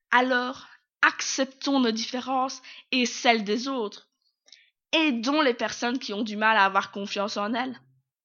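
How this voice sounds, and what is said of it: Strong local regional French accent. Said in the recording (French): “Avec un accent bien de chez nous.”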